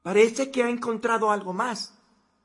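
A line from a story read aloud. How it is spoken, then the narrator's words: Shouting from another room. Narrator (Spanish): gritó Gettum desde la otra habitación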